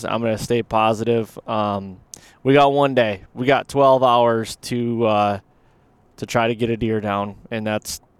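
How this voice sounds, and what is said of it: Deflated, low-energy voice. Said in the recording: “my voice sounds a little deflated”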